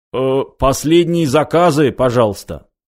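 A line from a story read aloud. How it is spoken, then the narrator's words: Nervous cough, loud announcement. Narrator (Russian): Бармен нервно кашлянул и громко произнес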